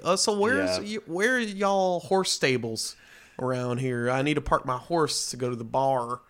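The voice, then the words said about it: Put-on stereotypical Texan cowboy accent. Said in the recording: “I'll don the accent. ... the most stereotypical version of what I'm sure everyone thinks a Texan is like”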